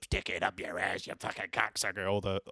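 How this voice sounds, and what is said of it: Impression of Exorcist demon voice. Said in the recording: “That's a really good impression.”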